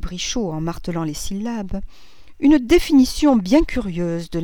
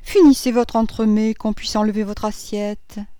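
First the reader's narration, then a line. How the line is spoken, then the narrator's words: Sour tone. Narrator (French): dit Madame Verdurin d'un ton aigre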